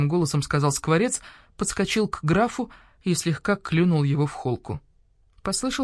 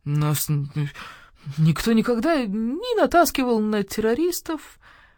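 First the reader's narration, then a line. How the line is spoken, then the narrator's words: Whined. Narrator (Russian): проскулил граф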